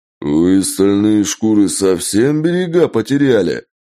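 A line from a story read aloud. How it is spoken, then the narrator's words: Sudden roar. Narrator (Russian): Неожиданно взревел Джек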